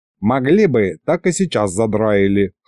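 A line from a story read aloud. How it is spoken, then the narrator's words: Old man's snort. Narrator (Russian): хмыкнул дед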